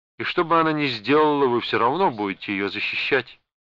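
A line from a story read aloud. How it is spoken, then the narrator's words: Indifferent tone. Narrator (Russian): все еще безразличным тоном продолжал детектив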